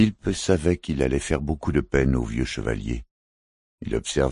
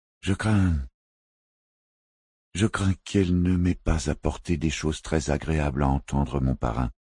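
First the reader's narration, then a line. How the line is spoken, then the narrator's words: Hesitant voice. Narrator (French): fit-il d'une voix hésitante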